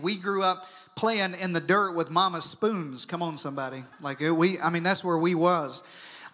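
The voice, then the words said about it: Southern US accent. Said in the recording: “I grew up in southern Arkansas ... it may explain my accent.”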